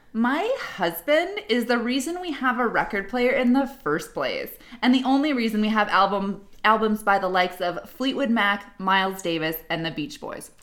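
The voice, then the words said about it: Mocking entitled Karen character voice. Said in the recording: “in my best Karen voice.”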